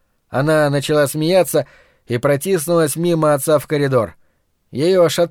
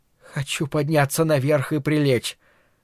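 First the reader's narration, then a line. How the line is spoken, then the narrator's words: Breathed out. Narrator (Russian): выдохнула Карла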